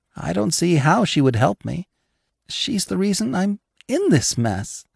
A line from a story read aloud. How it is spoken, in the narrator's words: Sasha whispered, her voice trembling